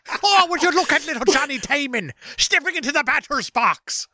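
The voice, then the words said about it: Put-on Irish accent. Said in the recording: “Why did I just go full Irish? ... with an Irish accent”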